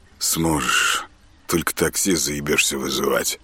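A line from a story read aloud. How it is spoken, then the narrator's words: Gloomy joke. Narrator (Russian): мрачно отшутился Артем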